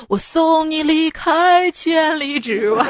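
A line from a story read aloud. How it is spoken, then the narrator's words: Sung with a smile. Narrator (Chinese): 她老公微微一笑，唱道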